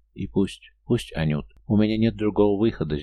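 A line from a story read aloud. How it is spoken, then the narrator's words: Breathy, holding back tears. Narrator (Russian): сдерживая слезы, выдохнула Дуня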